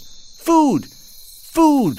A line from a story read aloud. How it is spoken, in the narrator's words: cried he still